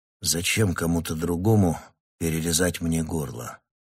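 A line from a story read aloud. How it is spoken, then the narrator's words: Plain. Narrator (Russian): спросил я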